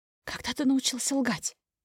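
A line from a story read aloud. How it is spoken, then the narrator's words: Whisper ringing clear, loud. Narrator (Russian): Спрашиваю шепотом, но в тишине номера мой голос звенит достаточно четко и громко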